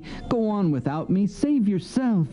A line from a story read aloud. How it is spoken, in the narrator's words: he begged Ruby